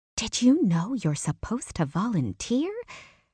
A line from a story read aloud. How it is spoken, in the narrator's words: Claire asked in a hushed whisper